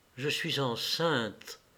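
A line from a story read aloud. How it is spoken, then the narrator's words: Slow female murmur. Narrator (French): murmura-t-elle lentement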